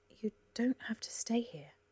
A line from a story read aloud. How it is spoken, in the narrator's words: Cora said, gently as she could